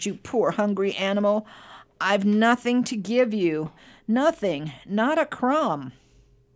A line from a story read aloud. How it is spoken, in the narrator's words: he moaned